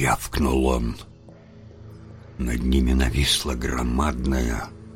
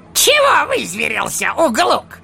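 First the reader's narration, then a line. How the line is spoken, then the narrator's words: Snapped back. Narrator (Russian): огрызнулся желтозубый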